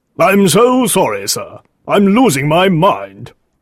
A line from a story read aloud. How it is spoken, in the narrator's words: Green cried